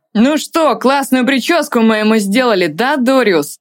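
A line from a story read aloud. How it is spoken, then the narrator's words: Mocking, then laughter. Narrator (Russian): сказал один другому, и они опять расхохотались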